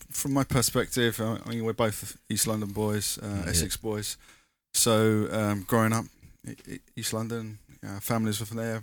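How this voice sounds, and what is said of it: East London English accent. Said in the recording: “By your accents, I could tell, probably because you're from there.”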